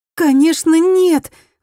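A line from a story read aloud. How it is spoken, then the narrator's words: Exclaimed. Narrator (Russian): воскликнула Мияко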